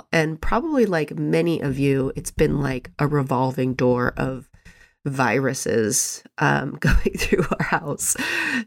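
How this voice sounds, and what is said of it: Congested voice from a cold. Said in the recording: “As you can probably hear, I have a cold. ... I had a cold. Now it's just that like residual, you actually sound worse than you feel.”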